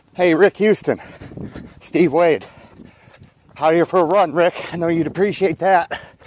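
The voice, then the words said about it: Slightly out of breath. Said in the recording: “he was running, so that's why he was a little bit out of breath”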